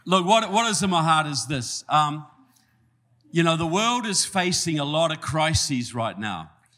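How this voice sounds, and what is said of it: New Zealand accent. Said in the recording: “a nice guy like you from New Zealand ... You can understand the southern accent all right?”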